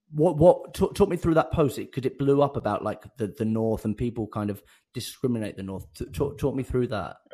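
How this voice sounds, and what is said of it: Southern English accent. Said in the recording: “I know I have a Southern accent”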